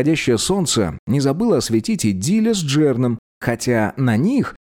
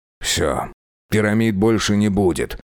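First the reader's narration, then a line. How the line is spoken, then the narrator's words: Angry grumble. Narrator (Russian): сердито проворчал Диль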